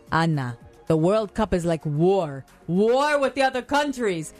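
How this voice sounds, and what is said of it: Thick Italian accent. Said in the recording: “thick Italian accent”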